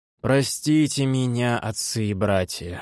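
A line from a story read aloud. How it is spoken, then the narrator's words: Contrite exhaled words. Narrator (Russian): выдохнул он сокрушенно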